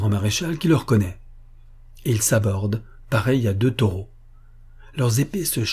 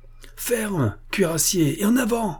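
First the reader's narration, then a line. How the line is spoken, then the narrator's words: Exclaiming. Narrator (French): s'écrie-t-il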